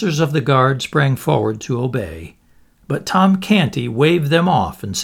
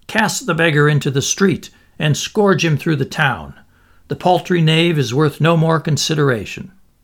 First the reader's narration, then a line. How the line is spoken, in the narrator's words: The Lord Protector called out fiercely